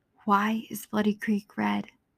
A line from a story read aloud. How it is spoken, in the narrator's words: The voice whispered again